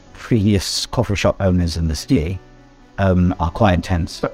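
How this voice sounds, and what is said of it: Usual voice. Nothing is said of it.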